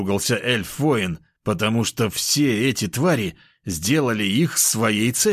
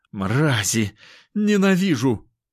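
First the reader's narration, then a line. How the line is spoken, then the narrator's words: Pained moan, acid-burned warrior. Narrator (Russian): простонал эльф-воин, весь ног до головы покрытый кислотой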